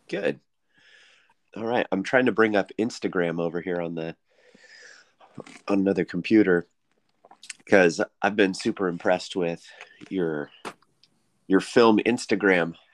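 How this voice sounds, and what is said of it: Scratchy, tired-sounding voice. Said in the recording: “I did not sleep very well last night. My voice sounds really scratchy.”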